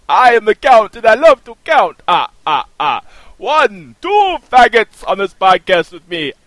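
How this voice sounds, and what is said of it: Impression of the Count. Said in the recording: “Count impression ... as the Count”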